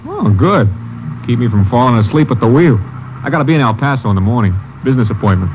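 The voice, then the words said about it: New York accent. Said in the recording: “You from the east? ... New York. Guess the accent sticks out, huh?”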